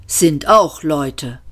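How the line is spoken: Calm. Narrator (German): sagte Ford ruhig

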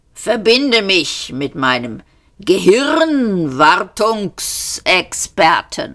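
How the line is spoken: Croaking. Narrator (German): krächzte er

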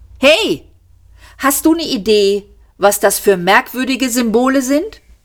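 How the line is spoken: Called out. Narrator (German): Sie rief Seyfert

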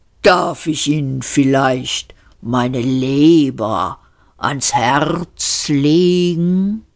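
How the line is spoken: Plain. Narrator (German): fragte das Tier

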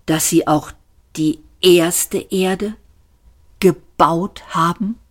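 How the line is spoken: Said slowly and deliberately. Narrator (German): sagte Arthur langsam und bedacht

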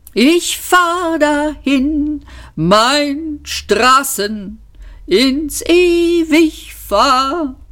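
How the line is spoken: Wailing. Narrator (German): jammerte Eddie

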